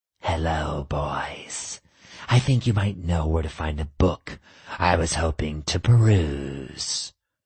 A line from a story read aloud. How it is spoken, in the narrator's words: she purred